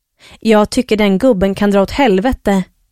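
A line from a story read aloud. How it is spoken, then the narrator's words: Growled. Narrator (Swedish): morra Lilly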